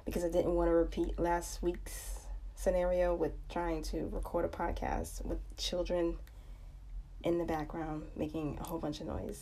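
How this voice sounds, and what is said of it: Scratchy, tired voice. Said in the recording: “my voice sounds a little scratchy or just like ick ... I'm a little tired”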